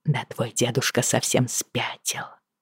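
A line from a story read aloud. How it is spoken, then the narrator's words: Whispered. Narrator (Russian): прошептала я Джему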